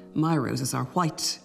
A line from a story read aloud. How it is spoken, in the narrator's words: he answered